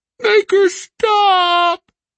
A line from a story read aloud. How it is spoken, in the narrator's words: Elphys uttered a long, echoing groan